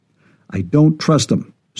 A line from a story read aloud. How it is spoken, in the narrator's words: said Tobin